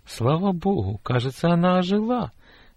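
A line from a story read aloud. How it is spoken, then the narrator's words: Joyful remark. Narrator (Russian): радостно отметила тетя Лиза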